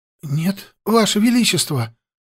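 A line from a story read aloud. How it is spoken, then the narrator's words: Frightened answer. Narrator (Russian): ответил Адатар перепуганным голосом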